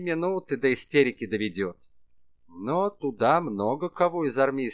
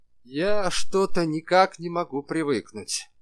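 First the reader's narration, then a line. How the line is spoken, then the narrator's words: Sigh. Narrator (Russian): вздохнул Деникин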